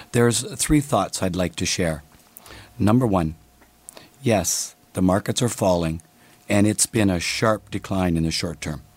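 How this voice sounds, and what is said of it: Hoarse, crackly voice. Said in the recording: “laryngitis... not quite laryngitis... my voice to be a little crackly”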